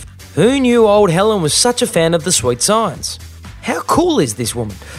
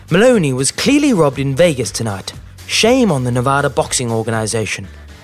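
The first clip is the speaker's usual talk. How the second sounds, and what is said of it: Impression of Helen Mirren. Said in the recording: “even film icon Dame Helen Mirren posted on her Instagram page that, quote, and pardon the impersonation”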